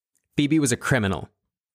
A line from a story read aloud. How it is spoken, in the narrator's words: Lynn blurted